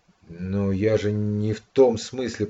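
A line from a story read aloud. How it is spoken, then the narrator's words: Confused, fearful mumble. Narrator (Russian): пробормотал Славка растерянно и даже как-то со страхом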